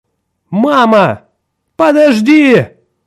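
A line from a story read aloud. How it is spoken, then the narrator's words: Desperate scream. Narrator (Russian): отчаянно закричала Николь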